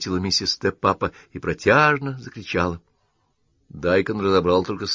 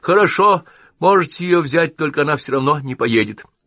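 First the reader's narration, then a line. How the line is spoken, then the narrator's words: Suddenly calm woman. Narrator (Russian): миссис Тепапа, мигом перестав стенать и завывать, совершенно спокойно проговорила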